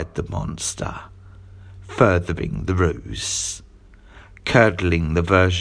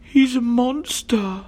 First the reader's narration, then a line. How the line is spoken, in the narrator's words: cried the little girl